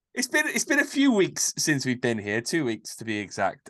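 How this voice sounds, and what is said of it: Slightly congested voice from a cold. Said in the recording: “Got a bit of a cold coming on. You can maybe be able to hear it in my voice.”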